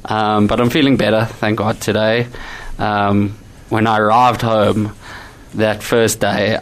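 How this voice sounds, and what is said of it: Slightly hoarse voice. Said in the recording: “I'm sure you can hear it still a little bit in my voice. ... My voice is still feeling a little bit hoarse.”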